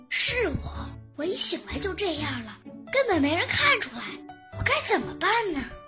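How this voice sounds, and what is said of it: Quiet, hushed speech. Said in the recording (Chinese): “小声说”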